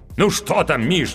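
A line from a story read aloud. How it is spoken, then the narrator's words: Impatient exclamation. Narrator (Russian): нетерпеливо воскликнул актер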